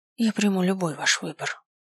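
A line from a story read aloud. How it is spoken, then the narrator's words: Servant's whisper. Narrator (Russian): прошептала служанка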